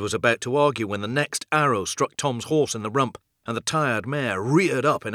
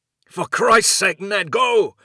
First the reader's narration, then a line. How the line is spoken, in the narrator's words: shouted